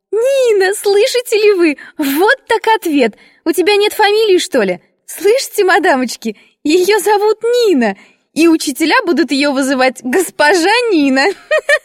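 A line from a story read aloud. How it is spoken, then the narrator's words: Girl bursting into laughter. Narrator (Russian): Расхохоталась девочка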